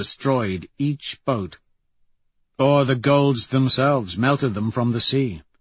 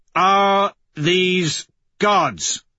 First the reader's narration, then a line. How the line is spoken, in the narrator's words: roar through my helmet